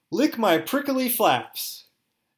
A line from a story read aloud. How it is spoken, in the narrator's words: She yelled